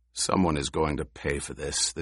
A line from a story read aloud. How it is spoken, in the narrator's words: the Duke said